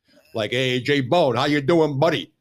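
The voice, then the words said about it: Exaggerated Italian-American tough-guy accent. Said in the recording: “he had that accent like a Goomba meets cocaine head”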